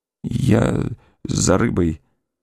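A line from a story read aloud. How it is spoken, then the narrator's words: Mumbling, barely moving lips. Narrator (Russian): бормотал Александр, едва шевеля губами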